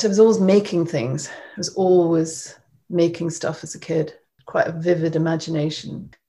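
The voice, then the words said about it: Scottish accent. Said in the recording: “I grew up in Scotland, as you probably can tell from my accent.”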